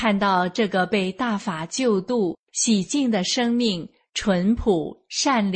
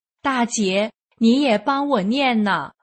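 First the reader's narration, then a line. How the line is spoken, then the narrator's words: Shouting. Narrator (Chinese): 大声喊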